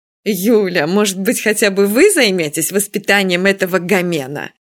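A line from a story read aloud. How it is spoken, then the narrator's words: Moaning plea. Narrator (Russian): простонала Нина Федосеевна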